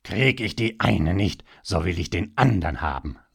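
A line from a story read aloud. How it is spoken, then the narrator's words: Audibly angry voice. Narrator (German): sagte er, und man konnte es seiner Stimme anhören, wie wütend er war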